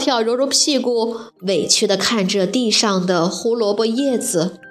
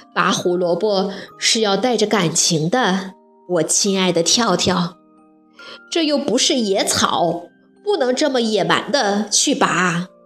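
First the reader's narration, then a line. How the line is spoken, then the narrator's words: Sighing. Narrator (Chinese): 蹦蹦摇摇头，叹了口气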